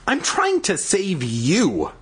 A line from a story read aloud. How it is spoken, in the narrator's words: Daniel exclaimed